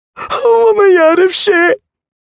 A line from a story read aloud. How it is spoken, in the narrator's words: sobbed the boy's mother